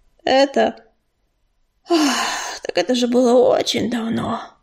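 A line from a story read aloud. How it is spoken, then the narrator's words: Heavy sigh. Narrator (Russian): тяжело вздохнул он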